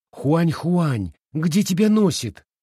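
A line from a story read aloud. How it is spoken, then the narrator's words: Impatient exclamation. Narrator (Russian): нетерпеливо воскликнула она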